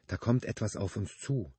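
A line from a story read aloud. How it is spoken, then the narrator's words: Quiet woman. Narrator (German): sagte sie leise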